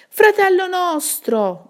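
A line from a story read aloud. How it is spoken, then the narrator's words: Shouting. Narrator (Italian): gridò l'altra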